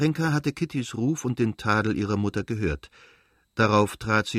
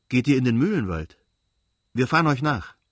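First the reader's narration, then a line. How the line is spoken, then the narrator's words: Calling out. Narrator (German): rief Kitty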